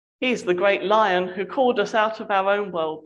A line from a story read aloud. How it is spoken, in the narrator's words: said Scrub